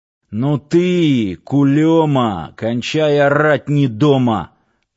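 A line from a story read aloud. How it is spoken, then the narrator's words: Angry growl. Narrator (Russian): рыкнул Сошин, лысина которого налилась багрянцем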